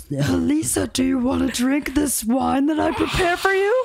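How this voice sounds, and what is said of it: Creepy, failed celebrity impression voice. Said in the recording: “that wasn't even a Bill Cosby impression. I don't even know what that was ... That was like a rapist impression”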